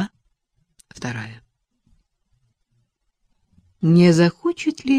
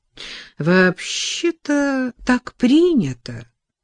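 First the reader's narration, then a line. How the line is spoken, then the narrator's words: Pleasant voice. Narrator (Russian): приятным голосом произнес помощник управляющего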